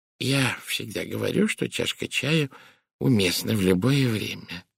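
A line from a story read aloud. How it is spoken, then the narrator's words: Muttered. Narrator (Russian): пробормотала мисс Пирс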